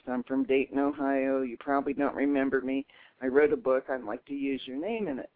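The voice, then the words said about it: Distinctive voice with an accent. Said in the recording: “My voice is a dead giveaway ... plus ... the accent.”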